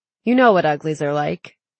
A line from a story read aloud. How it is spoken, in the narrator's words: Shay laughed